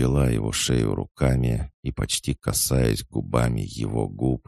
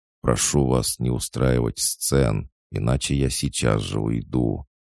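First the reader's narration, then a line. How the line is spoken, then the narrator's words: Calm reply. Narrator (Russian): Он ответил спокойно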